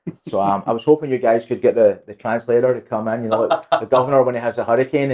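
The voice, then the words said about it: Scottish accent. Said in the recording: “that is not a Parrish, Florida accent. ... I'm from Scotland.”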